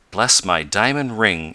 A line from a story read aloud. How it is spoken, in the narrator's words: exclaimed Mr